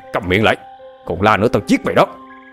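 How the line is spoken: Angry shout. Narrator (Vietnamese): Trần Tam tức giận quát

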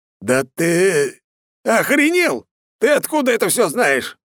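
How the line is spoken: Loud swearing. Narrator (Russian): Не удержался и стал громко материться

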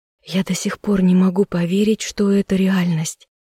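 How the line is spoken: Breathless, awed. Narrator (Russian): выдохнула она

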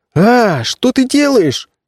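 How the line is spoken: Howling. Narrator (Russian): взвыл Меф

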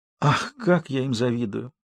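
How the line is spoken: Sighing. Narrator (Russian): вздохнула красавица

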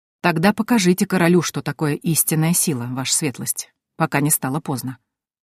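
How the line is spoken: Quiet voice. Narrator (Russian): тихо сказал Симон Баффуц

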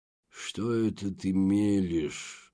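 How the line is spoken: Hiss. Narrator (Russian): прошипел Альтьери

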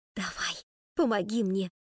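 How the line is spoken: Whispered request. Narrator (Russian): шепотом попросила

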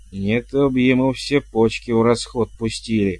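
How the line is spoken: Angry, through gritted teeth. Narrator (Russian): зло процедил племянник

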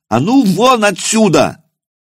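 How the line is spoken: Monk's battle yell. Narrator (Russian): в бой завопив, кинулся монах

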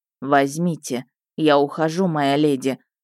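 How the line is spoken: Muffled, hollow reply. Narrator (Russian): глухо ответил он

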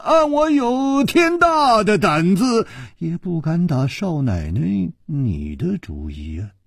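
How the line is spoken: Sighing. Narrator (Chinese): 楚留香叹了一口气说

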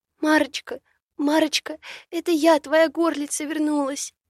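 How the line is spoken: Tearful. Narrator (Russian): сквозь слезы вымолвила Богдана

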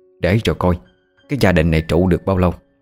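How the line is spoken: Angry muttering. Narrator (Vietnamese): Bà Năm tức lắm, bà lầm bầm trong miệng

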